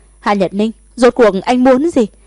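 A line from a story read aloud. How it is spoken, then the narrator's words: Angry. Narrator (Vietnamese): Thẩm Thất thực sự tức giận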